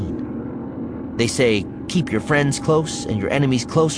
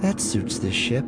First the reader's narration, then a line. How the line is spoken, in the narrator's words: Leia mutters